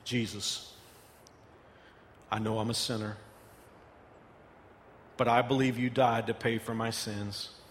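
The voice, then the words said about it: Slow, deliberate prayer with pauses. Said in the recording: “I'm going to pray it slowly ... I'll say it slowly”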